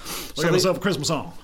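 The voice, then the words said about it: Elvis impression. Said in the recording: “That's a much better impersonation.”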